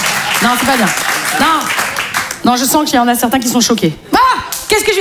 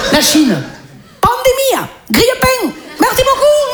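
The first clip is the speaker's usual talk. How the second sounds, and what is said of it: Put-on foreign accent. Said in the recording (French): “Un accent. Je viens de faire un accent.”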